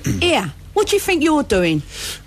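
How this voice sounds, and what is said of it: Put-on Cockney accent by northerner. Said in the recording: “a northerner trying to do a Cockney accent ... I'll deliver it in the best Cockney voice I can muster up”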